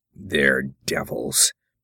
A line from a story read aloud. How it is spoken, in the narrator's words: mumbled the frontiersman